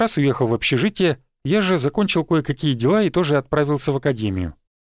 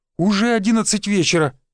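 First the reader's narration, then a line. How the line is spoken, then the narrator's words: Exclaimed. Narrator (Russian): воскликнул он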